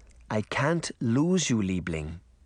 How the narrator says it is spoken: the old woman said quietly

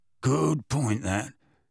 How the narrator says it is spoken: grunted

